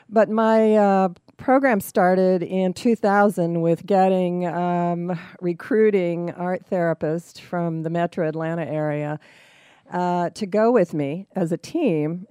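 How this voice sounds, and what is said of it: Rough, sick-sounding voice. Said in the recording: “Pardon my voice because I'm suffering from a little bronchitis.”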